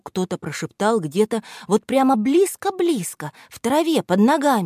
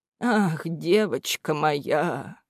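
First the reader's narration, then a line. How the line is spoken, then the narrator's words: Sad. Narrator (Russian): Печально покачал головой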